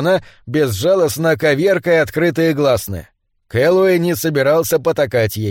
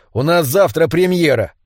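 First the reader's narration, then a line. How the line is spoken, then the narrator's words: Through gritted teeth. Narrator (Russian): процедил он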